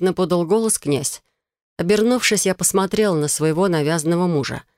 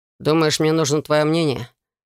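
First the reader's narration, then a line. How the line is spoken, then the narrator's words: Gloomy question. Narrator (Russian): мрачно поинтересовался Алекс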